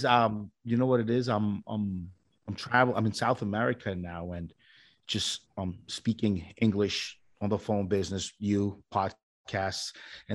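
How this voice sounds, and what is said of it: New York accent. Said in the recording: “your New York accent's really kicking in today”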